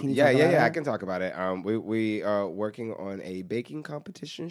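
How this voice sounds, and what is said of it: Low, congested sick voice. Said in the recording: “I have an upper respiratory infection, so I'm talking like this ... it sounds like Big Ange with sinusitis ... From that lower register?”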